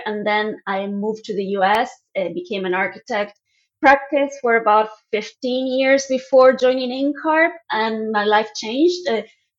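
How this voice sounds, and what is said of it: Argentine Spanish accent. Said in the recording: “As you can probably tell by my accent, I'm originally from Argentina.”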